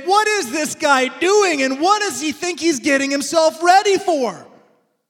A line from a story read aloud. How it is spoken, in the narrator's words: a bunch of people laughing and jeering at him, mocking him, saying